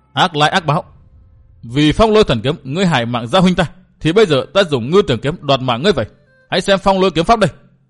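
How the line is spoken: Furious, resentful. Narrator (Vietnamese): Nàng càng căm phẫn hơn, hậm hực nói

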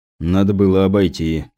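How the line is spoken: Grumbled. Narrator (Russian): пробурчал Кузнецов

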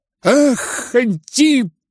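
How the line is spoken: Bitter shout. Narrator (Russian): крикнул он с горечью

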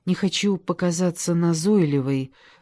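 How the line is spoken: Timid. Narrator (Russian): робко начала она

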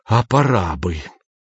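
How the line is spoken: Boss's raised whistling hiss. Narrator (Russian): шеф повысил голос до свистящего шипения

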